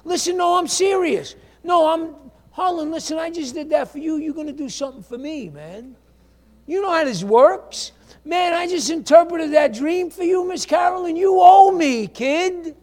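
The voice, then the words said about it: Put-on Italian accent. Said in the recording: “this is ... sounds Italian”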